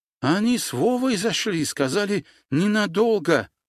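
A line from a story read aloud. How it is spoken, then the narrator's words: Babbled. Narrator (Russian): пролепетал Армен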